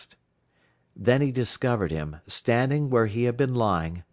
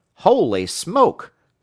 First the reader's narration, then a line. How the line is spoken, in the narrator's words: Matt exclaimed